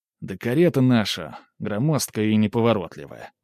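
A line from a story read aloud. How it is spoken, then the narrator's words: Sighed. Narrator (Russian): вздохнул я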